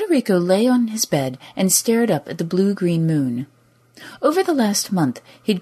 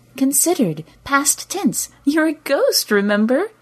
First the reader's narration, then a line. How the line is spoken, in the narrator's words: She giggled now